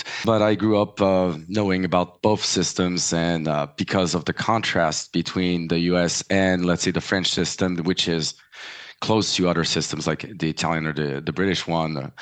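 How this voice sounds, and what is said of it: French-influenced English accent. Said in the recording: “my family's French, so forgive me for my accent.”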